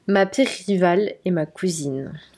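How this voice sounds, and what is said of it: Put-on Belgian French accent. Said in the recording (French): “Pourquoi t'as fait un accent belge?”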